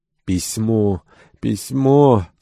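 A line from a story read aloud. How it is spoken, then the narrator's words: Disappointed young woman exclaiming. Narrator (Russian): с разочарованием воскликнула молодая камеристка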